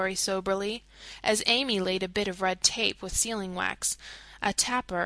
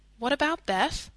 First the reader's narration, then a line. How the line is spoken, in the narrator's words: asked anxiously